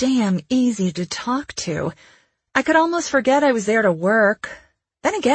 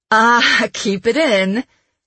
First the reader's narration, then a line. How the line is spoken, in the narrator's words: he laughed